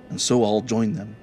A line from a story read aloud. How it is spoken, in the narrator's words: said the Fiddler